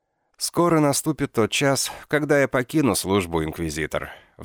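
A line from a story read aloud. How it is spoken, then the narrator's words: Sigh. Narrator (Russian): вздохнул он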